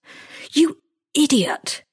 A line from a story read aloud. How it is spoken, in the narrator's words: he rasped